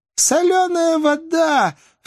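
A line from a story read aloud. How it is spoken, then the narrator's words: Laughing cry. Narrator (Russian): вскрикнула индианка, смеясь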